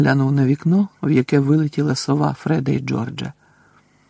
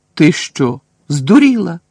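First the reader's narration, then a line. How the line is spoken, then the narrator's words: Exclaimed. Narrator (Ukrainian): вигукнув Рон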